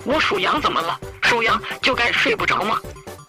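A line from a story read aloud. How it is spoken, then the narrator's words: Roaring. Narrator (Chinese): 他吼道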